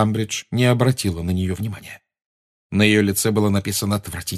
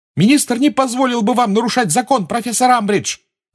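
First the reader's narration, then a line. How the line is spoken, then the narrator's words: Shouting. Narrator (Russian): крикнула Гермиона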